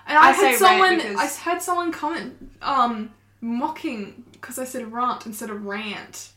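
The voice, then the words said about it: Mixed posh English and Australian accent. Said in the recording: “I've grown up posh English in Australia. So my accent is a bit everywhere sometimes.”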